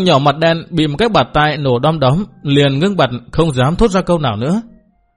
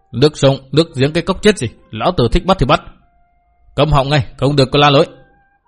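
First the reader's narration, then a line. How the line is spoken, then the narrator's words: Shouted order. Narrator (Vietnamese): gã nọ cất tiếng quát bảo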